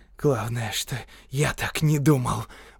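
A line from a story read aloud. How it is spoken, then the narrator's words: Hissed. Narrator (Russian): прошипел Торренс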